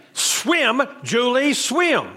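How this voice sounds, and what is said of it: Raised, urgent shouting voice. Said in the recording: “I raised my voice because of the urgency of the instructions”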